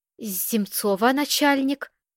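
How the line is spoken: Stuttering. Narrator (Russian): заикаясь, пояснил Белкин

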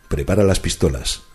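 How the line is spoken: Plain. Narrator (Spanish): dijo Dupin

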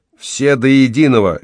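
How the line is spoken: Jubilant declaration. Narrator (Russian): ликующе заявил водитель

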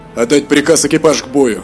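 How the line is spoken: Calm reply. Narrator (Russian): Спокойно ответил адмирал Валимор

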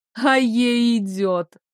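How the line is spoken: Laughing loudly. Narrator (Russian): расхохоталась эта зараза

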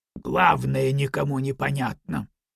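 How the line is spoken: Mumble. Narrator (Russian): пробормотал Дюфур

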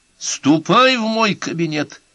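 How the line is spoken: Shouted. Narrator (Russian): крикнул Байфельд

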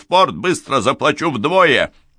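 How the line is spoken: Shout. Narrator (Russian): Вольский крикнул

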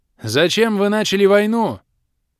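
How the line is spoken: Shouted. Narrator (Russian): крикнул я

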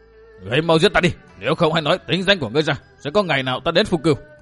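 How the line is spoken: Fiery sudden shout. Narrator (Vietnamese): Bạc Thuần Dương tinh khí nóng như lửa, đột nhiên quát

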